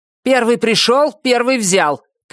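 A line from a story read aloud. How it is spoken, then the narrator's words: Shouted reply. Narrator (Russian): крикнул в ответ костюм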